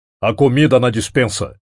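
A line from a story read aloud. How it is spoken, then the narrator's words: Growling. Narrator (Portuguese): rosnou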